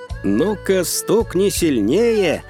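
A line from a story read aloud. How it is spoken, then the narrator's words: Laughing. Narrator (Russian): Вансань засмеялся в ответ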